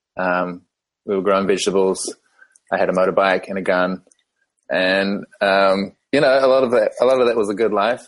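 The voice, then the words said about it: New Zealand accent. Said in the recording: “as you can tell from my accent, I was born in New Zealand”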